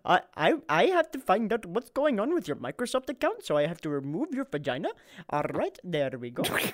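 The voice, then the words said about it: Put-on Indian accent. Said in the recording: “Why did you go to an Indian accent?”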